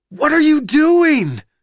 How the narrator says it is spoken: Jesus screams at the tank

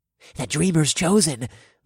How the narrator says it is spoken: they murmured in reverent voices

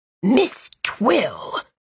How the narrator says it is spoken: Magician Avioski said in a suppressed sort of hiss

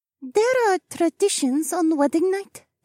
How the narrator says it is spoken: Ihara piped up

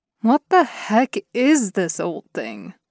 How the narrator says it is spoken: he groaned

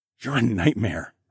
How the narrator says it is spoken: I whispered with a grin

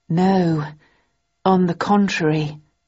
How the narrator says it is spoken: I replied slowly

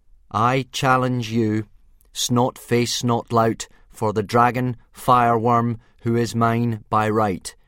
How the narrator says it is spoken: said Hiccup, trying to hide his reluctance by speaking as loudly and formally as he could

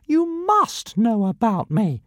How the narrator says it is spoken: piped Ziggurastica

